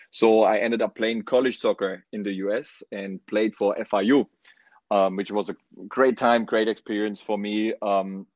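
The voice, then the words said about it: Strong German accent. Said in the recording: “still can't hide my accent after being, I don't know, over 10 years here in the US. I'm still have a pretty strong accent. ... I'm from Germany originally”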